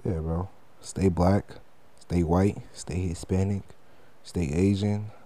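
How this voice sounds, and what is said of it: Low, relaxed, seductive-sounding voice. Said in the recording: “I'm in my bed voice. So it might sound like I'm trying to seduce you.”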